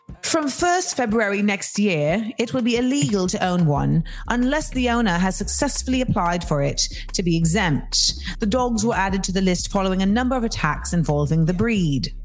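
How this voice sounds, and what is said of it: Put-on British accent. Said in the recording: “I will speak in my version of a British accent from this point forward.”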